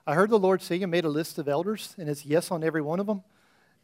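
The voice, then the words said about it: Imitated Irish accent. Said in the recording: “that's pretty good, Irish accent”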